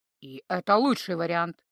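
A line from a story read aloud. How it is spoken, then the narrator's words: Wry grunt. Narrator (Russian): хмыкнул Хон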